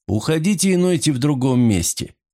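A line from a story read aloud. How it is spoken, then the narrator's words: Dry command. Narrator (Russian): сухо распорядился Вайланд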